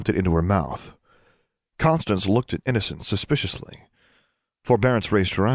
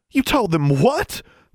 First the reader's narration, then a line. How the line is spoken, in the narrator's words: Forbearance exclaimed